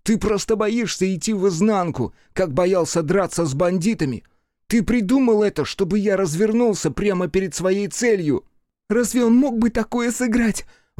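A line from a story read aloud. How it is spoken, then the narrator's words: Exclaiming. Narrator (Russian): воскликнула Игураси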